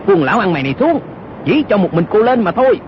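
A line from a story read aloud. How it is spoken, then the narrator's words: Shouted. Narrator (Vietnamese): Âu Dương Cát quát lên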